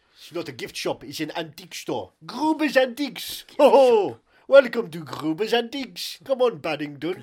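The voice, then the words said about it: Put-on German accent. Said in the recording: “In my German... my perfect German accent is wonderful”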